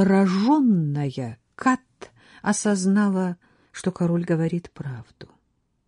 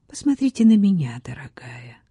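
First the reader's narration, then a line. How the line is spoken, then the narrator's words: Tender voice. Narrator (Russian): сказал нежным голосом Генрих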